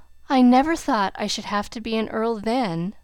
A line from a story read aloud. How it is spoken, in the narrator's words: remarked Cedric with a sigh